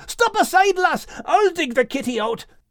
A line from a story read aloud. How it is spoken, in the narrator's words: furiously, shouting